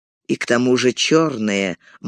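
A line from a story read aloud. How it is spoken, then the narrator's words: Gloomy. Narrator (Russian): мрачно добавил Арагорн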